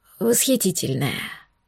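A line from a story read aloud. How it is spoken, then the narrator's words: Breathy exhale. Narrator (Russian): выдохнул он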